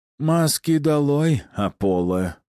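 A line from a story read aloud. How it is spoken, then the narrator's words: Tired voice. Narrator (Russian): усталым голосом повторил он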